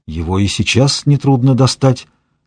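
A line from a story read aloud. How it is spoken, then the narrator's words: Hoarse whisper. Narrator (Russian): хрипло прошептал Эдгар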